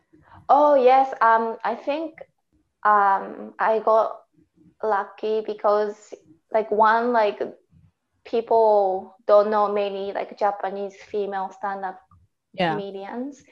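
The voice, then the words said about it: Japanese-accented English. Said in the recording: “my accent seems to make like anything like a little bit funnier when I say”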